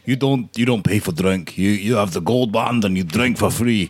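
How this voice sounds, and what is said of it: Imitates another person's voice. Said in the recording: “great Nori impression”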